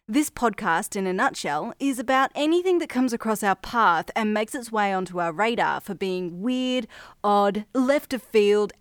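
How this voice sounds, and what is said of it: Australian accent. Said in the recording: “If you can't tell by the accent, I'm from Australia, the city of Brisbane in Queensland”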